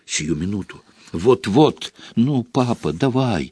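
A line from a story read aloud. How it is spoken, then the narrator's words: Whispering. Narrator (Russian): шептал он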